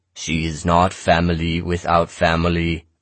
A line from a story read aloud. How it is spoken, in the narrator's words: I intoned